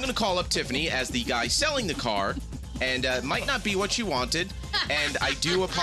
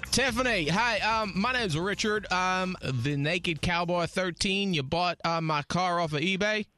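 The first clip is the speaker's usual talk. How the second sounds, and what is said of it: Bad put-on Southern accent. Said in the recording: “the bad Southern accent”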